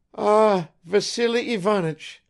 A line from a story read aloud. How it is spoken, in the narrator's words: faltered the old woman